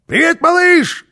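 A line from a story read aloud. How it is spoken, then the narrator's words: Shouting. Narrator (Russian): крикнул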